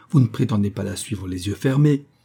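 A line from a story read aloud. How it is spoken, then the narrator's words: Grumbling, suppressed annoyance. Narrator (French): grommela-t-il en dissimulant son agacement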